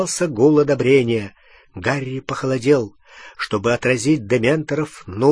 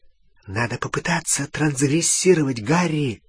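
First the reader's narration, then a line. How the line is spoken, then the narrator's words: Whisper. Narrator (Russian): шепнула Гермиона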